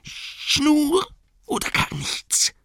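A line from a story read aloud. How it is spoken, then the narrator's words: Shrieked. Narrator (German): kreischte Gollum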